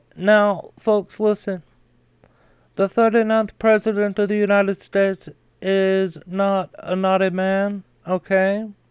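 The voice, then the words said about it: Put-on impersonation voice, changed accent. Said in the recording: “whenever I start impersonating someone, I automatically go to this voice right here. Like, my accent changes”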